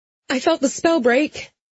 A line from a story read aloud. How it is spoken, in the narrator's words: I blurted